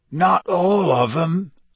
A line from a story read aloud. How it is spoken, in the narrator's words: said Hagrid hoarsely